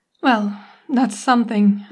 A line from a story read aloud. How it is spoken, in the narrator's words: say, with a groan